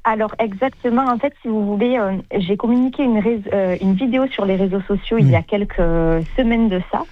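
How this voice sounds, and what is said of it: Southern French Sète accent. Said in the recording (French): “je suis originaire de Sète ... Mon accent me trompera toute ma vie.”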